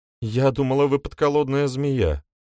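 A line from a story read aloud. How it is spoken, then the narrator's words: Sighing. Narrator (Russian): вздохнула Валери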